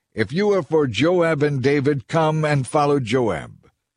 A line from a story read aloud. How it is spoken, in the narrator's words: One of Joab's young officers shouted to Amasa's troops